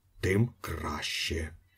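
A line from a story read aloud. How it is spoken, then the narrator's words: Whisper. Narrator (Ukrainian): прошепотів Іполит Матвійович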